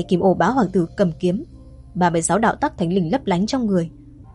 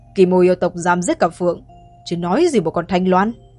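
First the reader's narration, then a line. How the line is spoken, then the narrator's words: Scornful sneer. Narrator (Vietnamese): Kim Ô Bá Hoàng Tử cười khẩy nói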